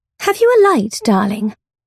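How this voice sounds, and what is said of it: Precise upper-class English accent. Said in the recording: “Her accent is regally, glassily precise, the very apotheosis of Englishness.”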